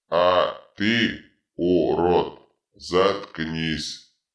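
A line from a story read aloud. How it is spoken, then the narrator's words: Power-drunk barking. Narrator (Russian): рявкнул опьяневший от власти Дитрит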